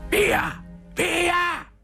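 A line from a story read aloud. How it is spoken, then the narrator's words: Fierce shout. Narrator (Italian): gridò Zotto, assumendo un'espressione feroce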